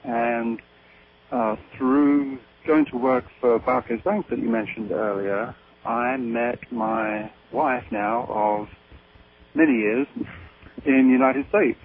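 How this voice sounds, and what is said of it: English accent. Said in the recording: “as you can tell from my accent, in England”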